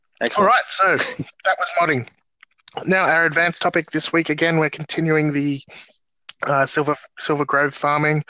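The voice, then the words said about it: Slightly hoarse, croaky voice. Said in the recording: “I have a little bit of a frog in my throat”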